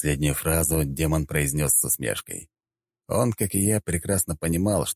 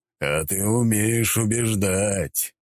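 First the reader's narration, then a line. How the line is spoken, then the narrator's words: Demon chuckling. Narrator (Russian): хохотнул демон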